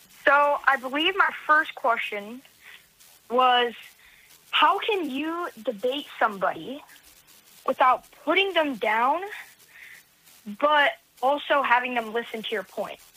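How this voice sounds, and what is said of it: Young-sounding voice. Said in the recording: “you sound young.”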